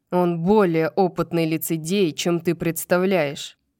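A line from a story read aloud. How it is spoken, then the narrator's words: Growl. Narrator (Russian): прорычал Рун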